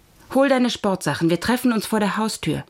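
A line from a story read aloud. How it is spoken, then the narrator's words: Plain. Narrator (German): sagte sie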